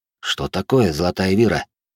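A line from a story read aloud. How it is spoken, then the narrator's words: Quiet question. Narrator (Russian): тихо спросил я у стоящего рядом Миноса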